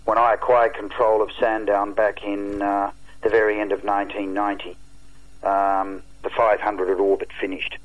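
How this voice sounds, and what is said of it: Disgusted, angry tone of voice. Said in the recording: “you can probably tell from the tone of voice ... I'm absolutely disgusted”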